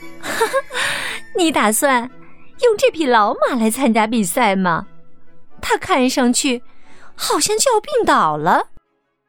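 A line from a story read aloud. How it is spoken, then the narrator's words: Girl laughing, mocking. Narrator (Chinese): 一个女孩……笑着对木兰说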